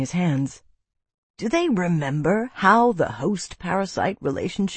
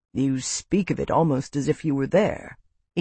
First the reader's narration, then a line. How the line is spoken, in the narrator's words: Ian noted quietly